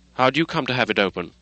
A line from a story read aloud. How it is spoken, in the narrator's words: sharply